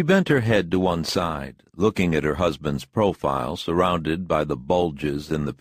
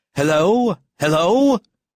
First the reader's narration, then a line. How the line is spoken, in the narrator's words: shouted an unfamiliar voice into the telephone excitedly and crossly